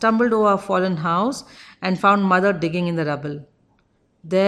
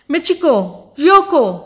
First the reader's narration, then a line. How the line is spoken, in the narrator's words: I screamed